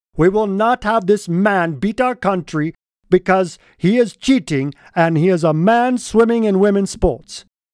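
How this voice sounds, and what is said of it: Playful put-on foreign accent. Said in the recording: “fun little accent”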